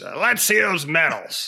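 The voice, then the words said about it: Imitates another person's voice. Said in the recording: “in my best Roycey voice.”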